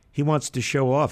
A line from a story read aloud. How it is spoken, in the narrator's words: said his aunt with a chuckle